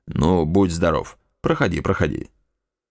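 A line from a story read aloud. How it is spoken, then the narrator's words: Cold. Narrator (Russian): отец ... холодно произносил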